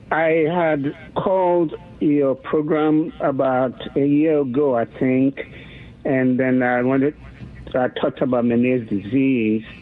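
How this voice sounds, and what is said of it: Foreign accent. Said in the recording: “I'm from another country, as you probably can tell from my accent”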